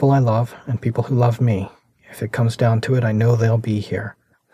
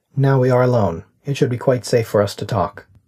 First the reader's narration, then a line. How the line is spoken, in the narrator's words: The disembodied voice said flatly